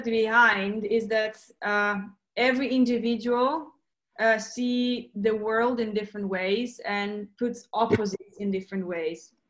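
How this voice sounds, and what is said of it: Slight foreign accent. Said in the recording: “there's a little bit of accent there and in here and there”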